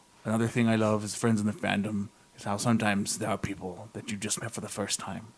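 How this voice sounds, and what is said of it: Put-on pirate accent. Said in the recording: “Your accent went from pirate to like, I don't know... in that voice... you read it in a pirate voice”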